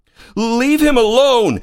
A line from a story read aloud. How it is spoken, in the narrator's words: yelled